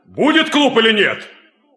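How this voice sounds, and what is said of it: Shouting. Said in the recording (Russian): “Не ори”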